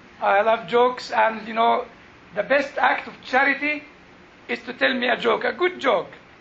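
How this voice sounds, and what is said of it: Jewish accent. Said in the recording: “He understands my Jewish accent”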